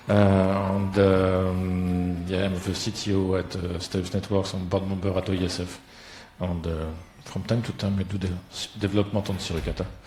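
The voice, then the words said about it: French accent in English. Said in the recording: “French, sorry for the accent.”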